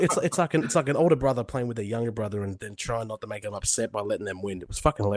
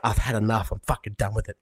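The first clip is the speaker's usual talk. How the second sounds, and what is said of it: Mocking feminine impression of a friend. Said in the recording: “Why do I have a feminine voice when you're impersonating me?”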